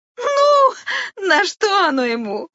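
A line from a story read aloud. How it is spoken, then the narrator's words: Laughing. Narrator (Russian): рассмеялась стрекоза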